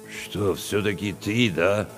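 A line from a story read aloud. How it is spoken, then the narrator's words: Confused mumble. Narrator (Russian): Растерянно пробурчал Чевчеридзе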